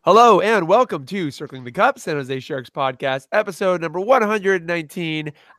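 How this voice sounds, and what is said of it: Voice sounds sick. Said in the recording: “I'm just sick”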